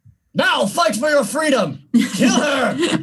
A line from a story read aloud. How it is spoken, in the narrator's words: would like to yell towards the halflings